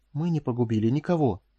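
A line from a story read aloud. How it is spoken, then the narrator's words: Whisper. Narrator (Russian): прошептала Корделия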